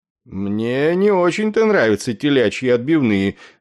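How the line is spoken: Skeptical grumble. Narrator (Russian): скептически пробурчал полковник на севере Корсики, командующий полком бомбардировщиков Б-25

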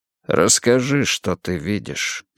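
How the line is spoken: Calm request. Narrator (Russian): спокойно попросил Эрик

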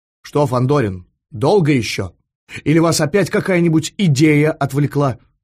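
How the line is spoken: Stern question. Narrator (Russian): строго спросил генерал

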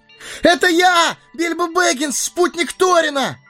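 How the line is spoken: Full-throated yell. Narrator (Russian): Заорал хоббит во всю глотку

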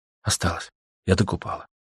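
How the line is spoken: Whispered answer. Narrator (Russian): шепотом ответила Аня

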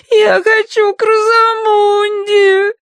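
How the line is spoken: Sobbing. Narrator (Russian): рыдала она

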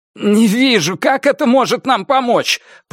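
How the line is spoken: Groaning. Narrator (Russian): простонал Дайер

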